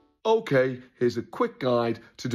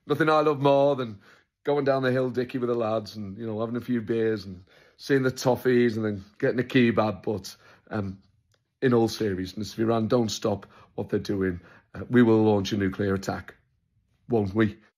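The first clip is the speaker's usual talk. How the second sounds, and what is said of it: Gentle-voiced Andy Burnham impression. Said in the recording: “doing an Andy Burnham impression. It's quite a gentle voice”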